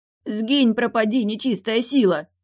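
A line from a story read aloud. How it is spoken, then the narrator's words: Barked. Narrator (Russian): рявкнул Станил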